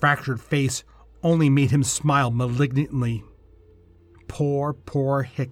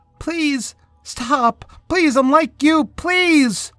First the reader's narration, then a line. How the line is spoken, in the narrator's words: screamed again